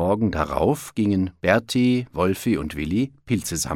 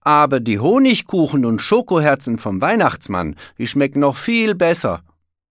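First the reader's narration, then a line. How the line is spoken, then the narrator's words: Calling out. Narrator (German): rief Willi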